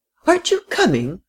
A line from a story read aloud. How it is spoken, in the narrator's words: cried the frail, excitable little lady